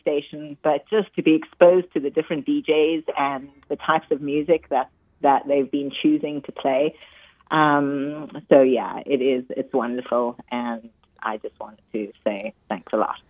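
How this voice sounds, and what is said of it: South African accent. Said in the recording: “when you speak, that South African accent is also something that is as delightful to the ears”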